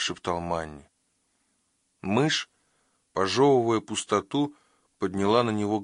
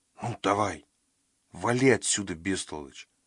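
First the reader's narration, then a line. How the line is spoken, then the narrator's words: Muttered. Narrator (Russian): пробормотал он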